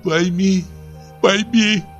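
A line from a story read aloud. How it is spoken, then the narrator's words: Sobbing speech. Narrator (Russian): выговорила сквозь рыдание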